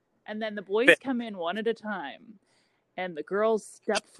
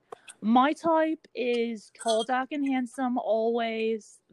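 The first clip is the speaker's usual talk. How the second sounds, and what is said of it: Imperfect put-on accent. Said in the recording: “This accent yeah. is not right. I'm not hitting the accent markers”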